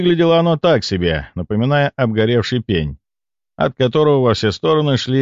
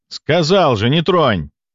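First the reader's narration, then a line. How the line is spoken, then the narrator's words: Barking shout. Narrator (Russian): гаркнул я на бойца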